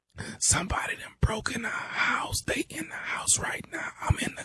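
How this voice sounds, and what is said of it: Quiet whispering voice. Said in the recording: “Man, speak up. I can't hear you. ... why the hell are you whispering?”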